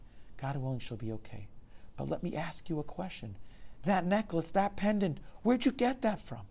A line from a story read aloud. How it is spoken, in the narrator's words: The man sighed